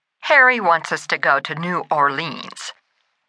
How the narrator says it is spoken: Alex grumbled

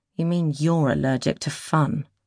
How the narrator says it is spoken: Cat muttered under her breath

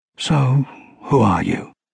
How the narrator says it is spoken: Quietly, Bernhard said

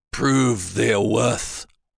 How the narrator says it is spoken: he began in a crusty voice

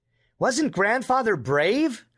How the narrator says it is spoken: exclaimed Lewis

